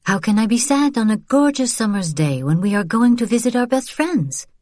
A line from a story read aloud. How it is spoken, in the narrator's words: Vian smiled a bit too brightly